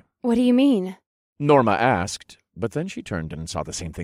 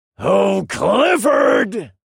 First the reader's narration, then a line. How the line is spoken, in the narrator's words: He shouted